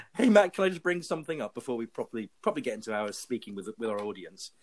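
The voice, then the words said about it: Cool accent, sounds authoritative. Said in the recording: “He has a cool accent ... Whatever he says is going to come off with authority because of it”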